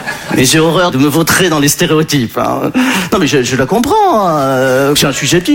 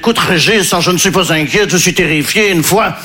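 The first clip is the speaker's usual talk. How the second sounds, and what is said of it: Put-on Belgian French accent. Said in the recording (French): “je prends l'accent belge parce que je ne sais pas faire l'accent ukrainien”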